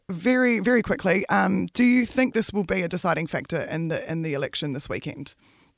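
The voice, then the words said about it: Strained, fading voice. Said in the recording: “I'm losing my voice today”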